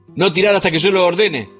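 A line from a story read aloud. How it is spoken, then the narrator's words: Shouted. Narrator (Spanish): grita Membrives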